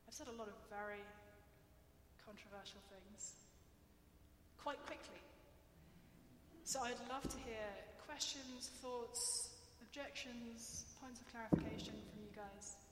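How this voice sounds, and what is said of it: English accent. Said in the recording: “my English accent ... filter out the Englishness”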